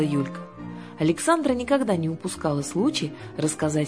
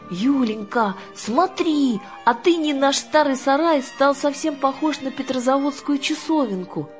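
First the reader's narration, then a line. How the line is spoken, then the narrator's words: Exclaiming. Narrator (Russian): воскликнула Аннушка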